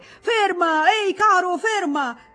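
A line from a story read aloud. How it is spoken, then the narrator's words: Two voices shouting. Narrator (Italian): gridavano due voci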